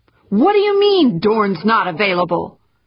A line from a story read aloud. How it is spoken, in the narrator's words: shouted at the blank phone screen